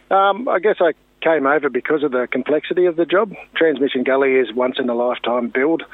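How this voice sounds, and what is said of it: Australian accent. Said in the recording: “obviously you're a Kiwi boy. ... Unfortunately, I'm Australian ... I didn't pick it from the accent at all”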